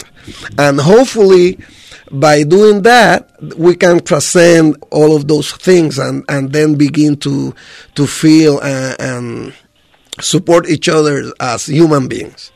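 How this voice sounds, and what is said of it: Noticeable accent in English. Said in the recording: “the actual language barriers that, you know, that you can pick up with my accent”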